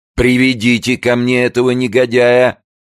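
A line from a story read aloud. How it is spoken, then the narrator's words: Angry shouting. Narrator (Russian): кричал Йоахим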